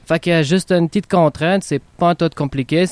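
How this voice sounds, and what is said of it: Quebec French accent. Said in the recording (French): “super accent québécois, j'admire”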